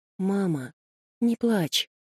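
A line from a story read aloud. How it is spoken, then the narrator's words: Child's sleepy whisper. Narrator (Russian): Мальчик сквозь сон обнял ее за шею и сквозь сон прошептал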